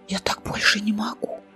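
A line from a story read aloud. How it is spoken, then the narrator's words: Whisper. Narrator (Russian): прошептала Билана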